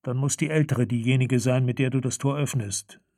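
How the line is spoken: Calm. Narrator (German): sagte Farodin ruhig

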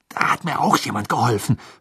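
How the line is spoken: Hissing, angry. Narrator (German): fauchte Harry

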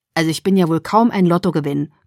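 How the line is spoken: Growling. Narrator (German): knurrte er

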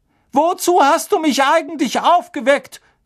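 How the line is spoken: Gruff shout, fat lady. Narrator (German): rief die fette Dame unwirsch hinterher

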